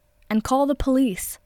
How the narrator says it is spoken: As an afterthought, Katsuki shouted after her

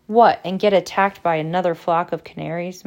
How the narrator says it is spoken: muttered Ron

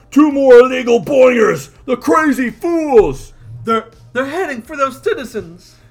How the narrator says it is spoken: Dredd is yelling out

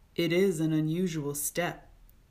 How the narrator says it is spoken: the king said gravely

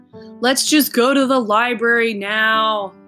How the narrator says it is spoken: Jack called out, sounding really bored

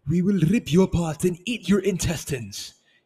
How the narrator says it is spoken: Hikari exclaimed

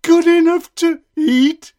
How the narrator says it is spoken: shrieked the gingerbread man

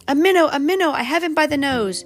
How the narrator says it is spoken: cried Mr

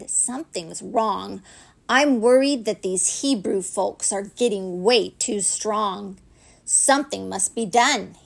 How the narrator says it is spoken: groaned

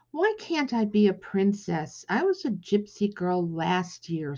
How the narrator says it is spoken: sighed Hetty

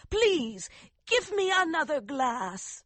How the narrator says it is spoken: she cried

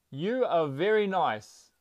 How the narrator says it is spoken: the father shouted again

